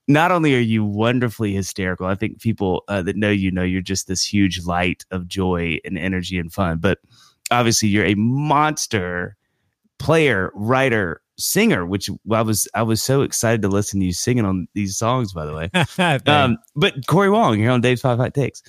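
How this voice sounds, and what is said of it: Radio voice. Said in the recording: “You've got such a radio voice.”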